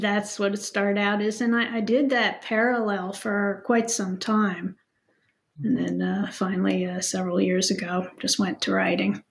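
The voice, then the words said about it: Slight New Jersey accent. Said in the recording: “you're still hanging on to a little bit of an accent, right? You come from where? ... New Jersey.”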